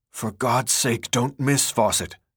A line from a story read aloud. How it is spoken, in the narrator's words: one of the men whispered